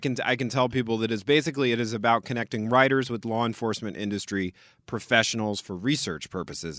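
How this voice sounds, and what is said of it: Smooth announcer-style voice. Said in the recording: “he has a good announcer voice”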